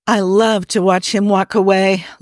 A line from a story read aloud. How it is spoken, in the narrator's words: La'an sighs